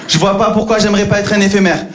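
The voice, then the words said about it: Southern French Marseille accent. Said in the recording (French): “le petit accent du sud, le petit accent marseillais”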